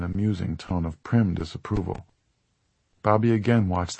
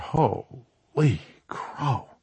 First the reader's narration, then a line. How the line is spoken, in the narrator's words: From behind him, Bobby heard Sully John mutter